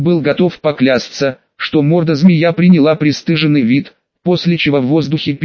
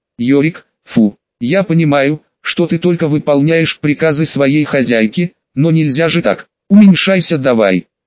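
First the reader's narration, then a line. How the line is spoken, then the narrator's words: Displeased tone. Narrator (Russian): Любава сказала недовольным тоном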